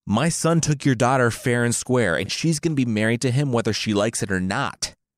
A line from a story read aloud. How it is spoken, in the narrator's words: the king yelled